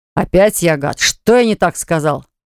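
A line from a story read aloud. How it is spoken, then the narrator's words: Indignant puffing deep voice. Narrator (Russian): Он тут же запыхтел, возмущенно и пробасил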